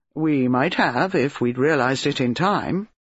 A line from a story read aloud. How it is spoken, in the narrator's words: Mark said dryly